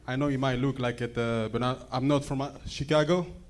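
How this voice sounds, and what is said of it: African-accented English. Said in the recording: “This is a real African accent.”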